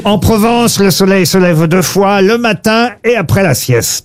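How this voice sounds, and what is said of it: Light put-on Provençal southern accent. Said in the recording (French): “Vous avez utilisé un petit accent... ça parle du midi en Provence”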